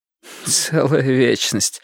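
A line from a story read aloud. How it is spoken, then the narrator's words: Dry sarcastic laugh. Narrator (Russian): сухо и язвительно засмеялась она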